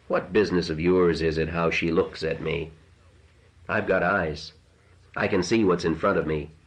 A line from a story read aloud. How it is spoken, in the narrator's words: He said coolly